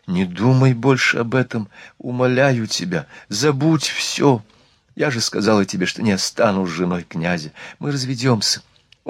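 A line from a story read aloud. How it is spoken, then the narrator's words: Passionate whisper. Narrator (Russian): она пылко прошептала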